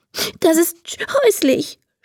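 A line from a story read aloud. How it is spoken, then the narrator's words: Sobbing. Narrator (German): schluchzt Emma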